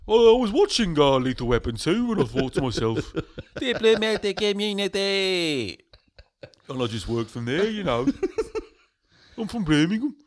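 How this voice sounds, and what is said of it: Birmingham Brummie accent. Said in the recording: “you got very Brummy there all of a sudden”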